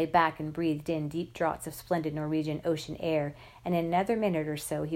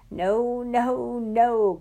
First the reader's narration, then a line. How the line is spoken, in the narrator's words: cried the now not-so-manly lover